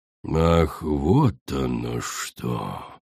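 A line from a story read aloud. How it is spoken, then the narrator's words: Drawling. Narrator (Russian): протянула Коралл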